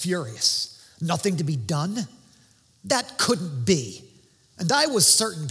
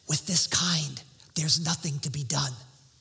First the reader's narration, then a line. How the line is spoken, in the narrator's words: whispering